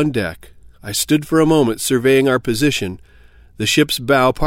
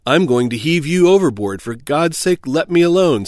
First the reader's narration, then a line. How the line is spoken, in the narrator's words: said he